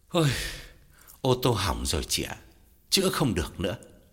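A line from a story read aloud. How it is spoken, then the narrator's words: Long weary sigh. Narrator (Vietnamese): Gã thở dài thườn thượt, bảo Lam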